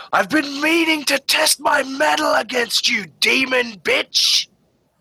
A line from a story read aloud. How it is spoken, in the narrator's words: she screams over the wind